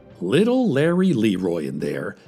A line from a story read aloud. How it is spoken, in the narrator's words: he said